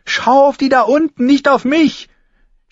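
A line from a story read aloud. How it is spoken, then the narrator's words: Shouting at someone. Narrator (German): schrie sie Heiße Pastete an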